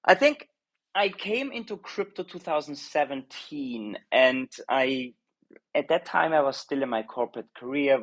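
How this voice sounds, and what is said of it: Austrian-accented English. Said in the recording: “I'm Austrian originally. I think my accent is giving it away a little bit, the Arnold Schwarzer accent that I couldn't get rid of all my life”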